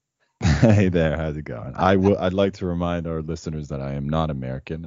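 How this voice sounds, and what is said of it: Deep voice. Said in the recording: “deep voice”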